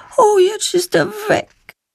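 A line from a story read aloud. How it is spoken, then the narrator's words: Sad. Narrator (German): stellt sie traurig fest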